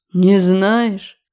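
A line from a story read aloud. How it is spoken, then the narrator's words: Scoffing grunt. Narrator (Russian): хмыкнул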